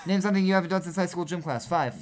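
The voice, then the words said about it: Speaks very fast. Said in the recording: “saying it so fast”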